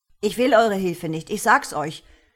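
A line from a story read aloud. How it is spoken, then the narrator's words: Bellowed at someone. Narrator (German): brüllte Tom ihn an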